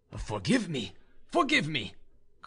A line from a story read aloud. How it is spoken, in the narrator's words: cried